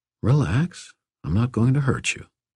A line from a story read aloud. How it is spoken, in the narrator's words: I said, keeping my voice gentle